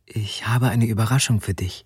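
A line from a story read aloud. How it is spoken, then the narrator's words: Whispered. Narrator (German): flüsterte sie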